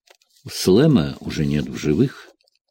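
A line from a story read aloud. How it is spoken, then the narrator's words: Sad reply. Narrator (Russian): грустно ответил Джек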